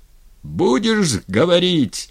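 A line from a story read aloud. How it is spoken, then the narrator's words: Yelling. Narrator (Russian): заорал дьяк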